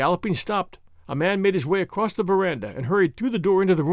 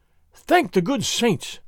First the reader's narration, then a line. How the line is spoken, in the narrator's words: Don Carlos gasped